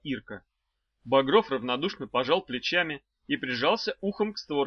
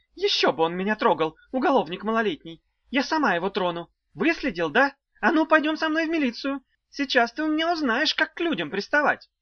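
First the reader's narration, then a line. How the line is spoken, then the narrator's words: Shrieked. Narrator (Russian): Взвизгнула она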